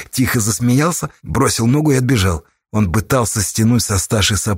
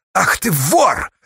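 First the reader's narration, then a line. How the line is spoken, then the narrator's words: Barking, jumping up. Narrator (Russian): рявкнула, подскакивая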